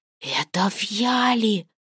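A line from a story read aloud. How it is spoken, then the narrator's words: Excited hiss. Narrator (Russian): возбужденно шипел Коль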